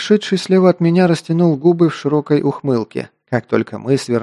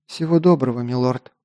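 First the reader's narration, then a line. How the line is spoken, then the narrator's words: Quiet reply. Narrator (Russian): тихо ответила Лисана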